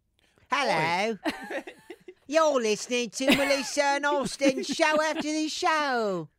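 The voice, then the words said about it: Put-on English accent. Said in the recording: “What happens if we do the whole podcast in an English accent?”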